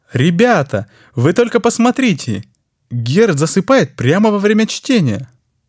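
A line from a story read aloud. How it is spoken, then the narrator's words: Exclaiming. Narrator (Russian): воскликнул сидящий рядом Франц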